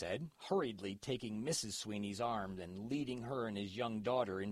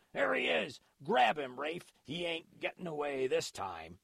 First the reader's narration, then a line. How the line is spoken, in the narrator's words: the other man yelled